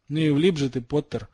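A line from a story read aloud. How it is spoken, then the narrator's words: Confident snort. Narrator (Russian): хмыкнул разом потерявший всю свою робость Драко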